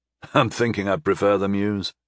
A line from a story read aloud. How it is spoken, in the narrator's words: I chuckled